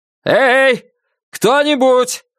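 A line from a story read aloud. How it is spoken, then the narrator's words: Shouting again. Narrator (Russian): снова крикнул он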